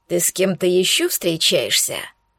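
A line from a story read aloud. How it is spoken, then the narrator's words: Jealous growl. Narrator (Russian): Ревниво зарычал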